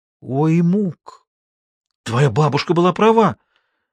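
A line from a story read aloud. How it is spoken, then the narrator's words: Exclaiming young woman. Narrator (Russian): воскликнула девушка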